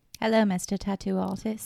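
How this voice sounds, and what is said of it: Put-on cordial British accent. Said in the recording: “talk with the British accent. Be very cordial.”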